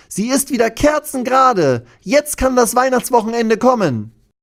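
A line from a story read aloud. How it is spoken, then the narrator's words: Called out. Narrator (German): ruft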